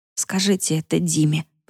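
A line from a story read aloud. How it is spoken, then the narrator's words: Mutter. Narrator (Russian): пробормотала Яна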